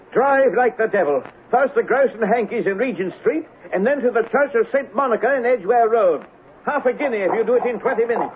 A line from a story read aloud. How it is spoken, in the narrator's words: shouted